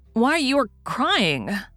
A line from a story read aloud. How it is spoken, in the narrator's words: exclaimed in amazement